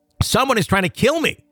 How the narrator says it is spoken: husband screaming

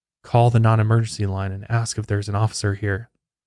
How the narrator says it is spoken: he whispered

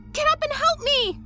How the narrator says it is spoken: she cried to Megan

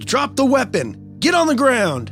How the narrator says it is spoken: He then yelled

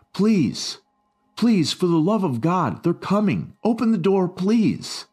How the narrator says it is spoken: the guard pleaded through the radio

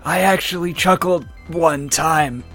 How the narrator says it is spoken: In his death throes, Knuckles said under his breath

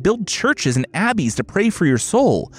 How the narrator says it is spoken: Felice pleaded

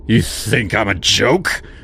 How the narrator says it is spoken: He growled, swaying a little

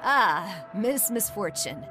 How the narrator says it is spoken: he chuckled

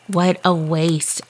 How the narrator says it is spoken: I mutter

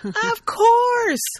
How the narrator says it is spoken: Lena exclaims

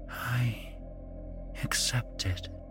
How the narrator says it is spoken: she whispered

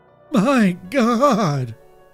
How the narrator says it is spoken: breathed

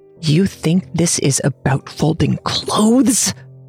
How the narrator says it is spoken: I hissed

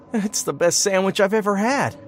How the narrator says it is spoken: moaned

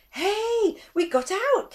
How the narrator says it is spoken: Kanta cried

